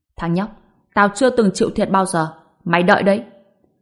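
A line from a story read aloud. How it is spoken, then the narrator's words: Shocked and angry. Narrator (Vietnamese): vừa kinh ngạc vừa tức giận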